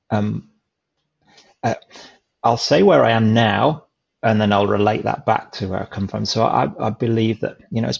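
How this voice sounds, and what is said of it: English accent. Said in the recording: “I'm obviously English from my accent.”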